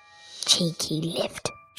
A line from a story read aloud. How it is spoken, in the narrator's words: she said quietly